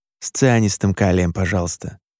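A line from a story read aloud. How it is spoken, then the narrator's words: Mumbled. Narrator (Russian): пробормотал Сергей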